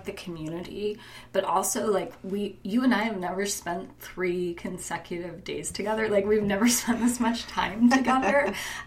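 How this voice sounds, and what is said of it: Hoarse, strained voice. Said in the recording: “some of you can probably hear I'm losing my voice ... have to shout ... I'm losing my voice”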